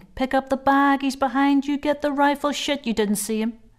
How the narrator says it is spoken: him shouting

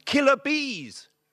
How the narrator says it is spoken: shouted helpfully

